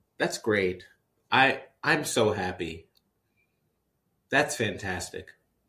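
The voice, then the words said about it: Sarcastic tone. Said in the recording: “You're being sarcastic.”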